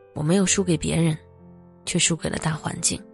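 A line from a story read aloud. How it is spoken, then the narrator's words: Sighing lament. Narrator (Chinese): 一位曾笃定自己不会被裁的骨干工程师，临走前对我唏嘘感叹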